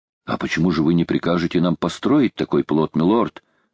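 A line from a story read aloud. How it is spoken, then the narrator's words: Plain. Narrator (Russian): спросил Вильсон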